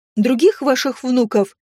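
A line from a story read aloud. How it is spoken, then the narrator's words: Meek squeak. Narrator (Russian): скромно пискнула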